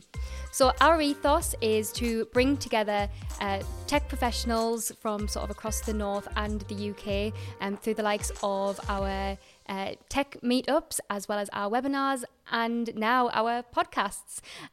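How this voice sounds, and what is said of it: Strong Mackem accent. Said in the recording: “my very strong Macam accent coming out there”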